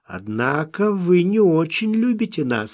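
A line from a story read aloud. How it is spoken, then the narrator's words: Laughing. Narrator (Russian): рассмеялся Смок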